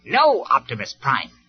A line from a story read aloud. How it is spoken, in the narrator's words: Starscream replied firmly